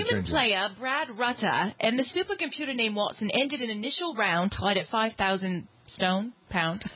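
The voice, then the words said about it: Put-on English accent. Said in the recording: “I was going to use my English accent.”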